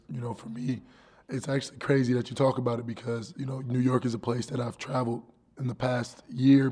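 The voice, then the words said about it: Hoarse, strained voice. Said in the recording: “my voice is going, because I've been, you know, singing along and singing my heart out”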